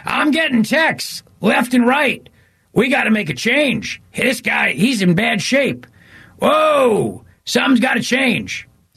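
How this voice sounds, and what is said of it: Impression of panicked Democrat TV operatives. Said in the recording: “my impression of every single Democrat operative on TV last night, or every single CNN or MSNBC columnist, whether it was Jen Psaki or whether it was Nicole Wallace”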